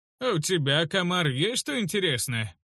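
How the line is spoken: Cheerful growl through teeth. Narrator (Russian): Улине весело усмехнулась, прорычав сквозь плотно сомкнутые зубы

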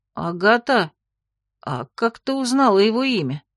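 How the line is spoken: Strained utterance. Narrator (Russian): Все, что я смогла выдавить

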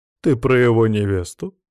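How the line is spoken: Mocking. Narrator (Russian): насмешливо приподняла бровь матриарх Басир

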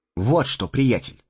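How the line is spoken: Stern. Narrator (Russian): строго сказал Фродо

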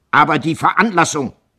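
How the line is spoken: Shout. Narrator (German): rief Kohlhaas

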